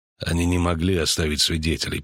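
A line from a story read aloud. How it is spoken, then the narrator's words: Grumble. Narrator (Russian): проворчал ведьмак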